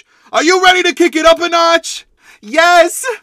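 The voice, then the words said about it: Yelling excitedly. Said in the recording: “why are you yelling?”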